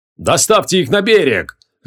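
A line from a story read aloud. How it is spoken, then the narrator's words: Booming command. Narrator (Russian): зычным голосом скомандовал он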